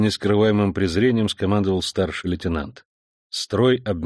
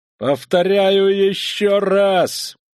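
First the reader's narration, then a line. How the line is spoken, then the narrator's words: Desperate tearful shout. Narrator (Russian): плачущим от отчаяния голосом прокричал старший лейтенант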